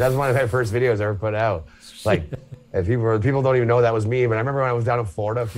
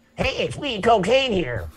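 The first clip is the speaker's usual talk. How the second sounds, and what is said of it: Voice of a talking cocaine bag. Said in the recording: “me doing a talking bag of cocaine”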